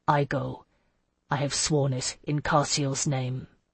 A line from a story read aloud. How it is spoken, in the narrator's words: he said softly